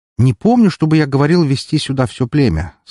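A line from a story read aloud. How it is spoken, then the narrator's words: Friendly tone. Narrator (Russian): сказал ему дружелюбным тоном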